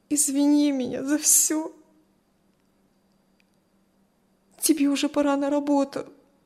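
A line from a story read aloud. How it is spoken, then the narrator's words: Tearful strained voice. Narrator (Russian): Все еще сквозь слезы выдавила Кристи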